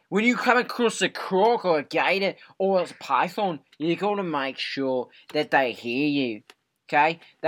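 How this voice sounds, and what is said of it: Loud Australian accent. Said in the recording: “do you actually have an Australian accent ... your volume level is four times louder”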